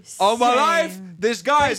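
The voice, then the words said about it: Shouting loudly. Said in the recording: “stop shouting ... Please stop shouting ... say it on the normal tone, please.”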